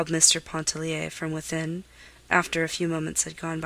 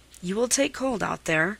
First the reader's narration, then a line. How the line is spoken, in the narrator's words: said irritably